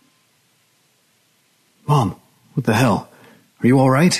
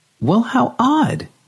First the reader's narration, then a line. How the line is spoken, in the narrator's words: She exclaimed and forced a smile onto her face